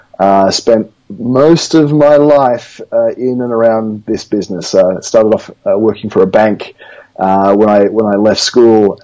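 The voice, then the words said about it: Australian accent. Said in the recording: “as you might tell from the accent, originally from Australia”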